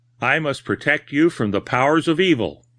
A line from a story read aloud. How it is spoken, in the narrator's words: exclaimed